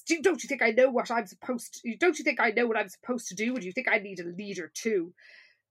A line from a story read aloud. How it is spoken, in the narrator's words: Miss Dalton snaps and says